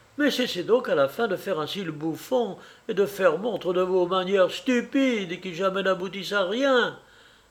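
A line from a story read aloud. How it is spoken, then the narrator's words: Furious shout. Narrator (French): s'écria Varvara Nikolaïevna, mise cette fois hors d'elle-même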